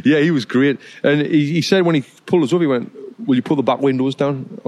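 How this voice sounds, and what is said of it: Strong British accent. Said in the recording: “You've got this strong British accent.”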